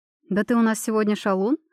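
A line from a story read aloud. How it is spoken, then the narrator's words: Girl's short laugh. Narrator (Russian): хохотнула девушка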